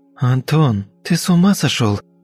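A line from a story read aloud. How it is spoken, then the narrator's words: Hissing woman. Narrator (Russian): зашипела дама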